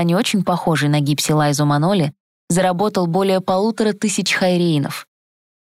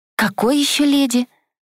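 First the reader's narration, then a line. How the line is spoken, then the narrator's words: Stunned breathless exclamation. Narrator (Russian): ошарашенно выдохнула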